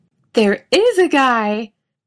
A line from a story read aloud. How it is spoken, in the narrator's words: he snaps